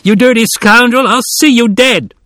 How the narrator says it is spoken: The injured boy was crying, shrieking

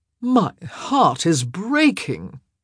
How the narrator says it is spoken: Benedict drawled

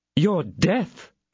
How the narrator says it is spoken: cried he

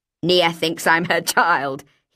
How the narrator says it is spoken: he laughed, trying to make a joke of it

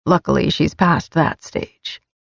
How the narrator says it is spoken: he added with a mutter

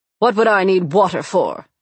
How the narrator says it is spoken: snapped

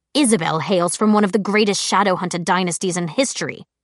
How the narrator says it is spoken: Alec said dryly

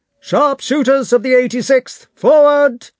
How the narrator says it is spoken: shouted someone

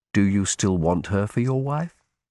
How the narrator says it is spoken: I asked quietly

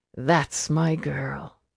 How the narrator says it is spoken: he sighed

